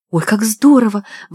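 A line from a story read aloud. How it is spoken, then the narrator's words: Excited breathy. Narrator (Russian): воодушевленно выдохнула красотка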